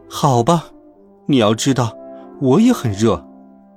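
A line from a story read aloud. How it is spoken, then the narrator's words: Exclaiming. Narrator (Chinese): 威尔伯叫道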